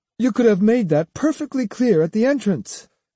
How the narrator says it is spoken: the priest said haughtily

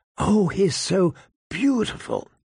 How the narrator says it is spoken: Sansa's fervent whisper

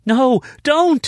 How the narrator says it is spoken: Savannah screamed

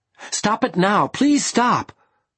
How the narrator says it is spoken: I shouted

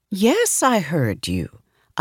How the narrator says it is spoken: I answered calmly

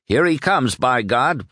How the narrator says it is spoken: shouted

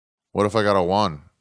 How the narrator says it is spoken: said Billy Ray

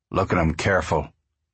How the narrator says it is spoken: Jules said

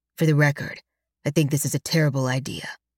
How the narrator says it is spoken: Alex growls unhappily

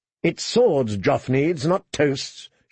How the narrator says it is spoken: she snapped

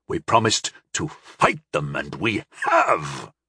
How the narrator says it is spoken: Korbal spat

